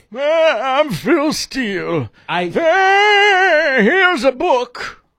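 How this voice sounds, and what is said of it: Old man voice impression. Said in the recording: “my Phil Steele impression ... That's a pretty good old man impression.”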